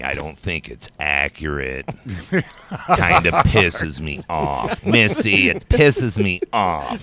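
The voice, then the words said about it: Impression of a friend. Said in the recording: “just kind of goes off on a tangent doing an impression of you”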